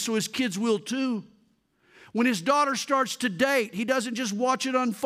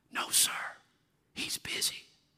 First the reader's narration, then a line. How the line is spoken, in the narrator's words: The little boy whispered